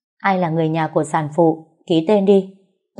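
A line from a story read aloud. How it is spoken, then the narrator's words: Raised voice. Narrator (Vietnamese): Cô y tá cao giọng nói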